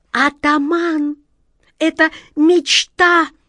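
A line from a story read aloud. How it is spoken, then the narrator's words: Shrill squeal. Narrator (Russian): взвизгнула черная кошка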